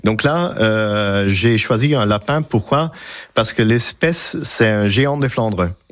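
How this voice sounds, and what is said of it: Strong Belgian Flemish accent in French. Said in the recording (French): “j'ai un petit accent, ou peut-être même un grand accent, et ça vient de la Belgique.”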